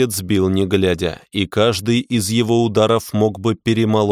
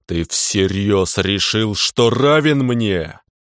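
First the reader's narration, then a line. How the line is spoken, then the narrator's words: Growled in the face. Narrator (Russian): Прорычал я ему прямо в лицо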